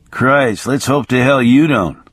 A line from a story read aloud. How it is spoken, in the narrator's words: Bruce muttered